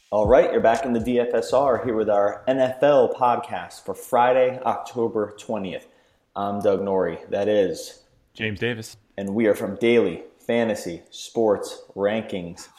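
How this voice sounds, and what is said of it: Slow, deliberately enunciated speech. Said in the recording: “Why are you talking so slow? ... I'm enunciating it”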